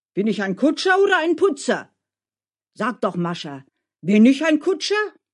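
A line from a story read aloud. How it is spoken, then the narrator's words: Wilder shouting. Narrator (German): schrie Dmitri noch wilder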